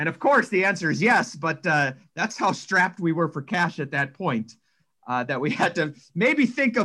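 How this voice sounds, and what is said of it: Usual voice. Nothing is said of it.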